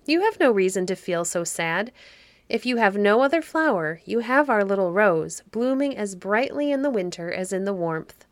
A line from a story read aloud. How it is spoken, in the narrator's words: he said cheerfully